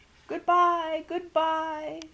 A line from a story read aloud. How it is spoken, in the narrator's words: she wailed